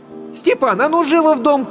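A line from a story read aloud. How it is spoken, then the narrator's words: Shout from another room. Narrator (Russian): крикнула Татьяна из сеней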